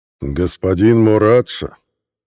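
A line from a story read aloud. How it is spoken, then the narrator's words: Cold. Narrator (Russian): холодно сказал Илла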